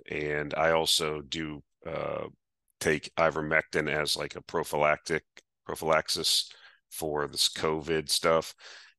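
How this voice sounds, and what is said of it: Congested, slightly off voice. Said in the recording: “my voice is a little bit screwy ... runny nose thing and post-nasal drip”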